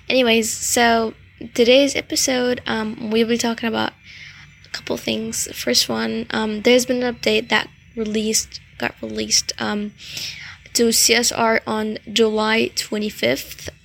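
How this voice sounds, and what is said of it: Voice affected by a cold. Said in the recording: “sorry about my voice. I just got a cold, so my voice is a little bit weird”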